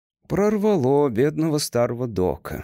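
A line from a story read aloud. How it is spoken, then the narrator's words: Sigh. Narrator (Russian): вздохнул он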